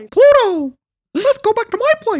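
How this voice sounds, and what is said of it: Mickey Mouse cartoon character voice. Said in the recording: “Let me say that in my character voice. ... Mickey?”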